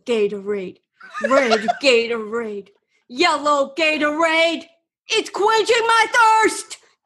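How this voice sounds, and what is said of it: Imitates another person's voice. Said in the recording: “that sounded so much like. ... That's a great impression.”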